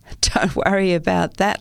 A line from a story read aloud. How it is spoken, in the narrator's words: laughed Dr